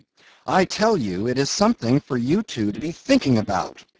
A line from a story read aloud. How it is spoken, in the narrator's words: cried